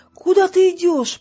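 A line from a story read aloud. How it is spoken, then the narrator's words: Shout from behind. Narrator (Russian): прокричал Роланд позади нее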